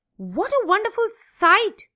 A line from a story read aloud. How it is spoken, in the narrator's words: exclaimed